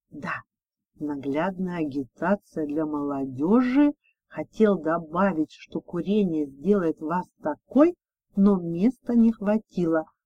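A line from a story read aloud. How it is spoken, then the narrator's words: Whispered reply. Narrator (Russian): прошептал в ответ Дима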